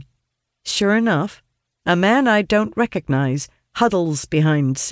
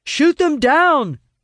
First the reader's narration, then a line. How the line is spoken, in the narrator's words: Owen shouts